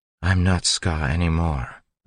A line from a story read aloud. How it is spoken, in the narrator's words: Vin said quietly